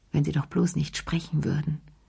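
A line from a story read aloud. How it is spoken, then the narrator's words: Murmured. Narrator (German): murmelte sie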